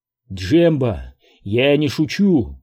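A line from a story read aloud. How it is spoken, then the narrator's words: Exclamation. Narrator (Russian): воскликнул Оби-Ван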